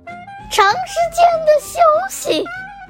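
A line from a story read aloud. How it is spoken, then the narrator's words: Doctor, smiling cheerfully. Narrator (Chinese): 医生满面笑容地说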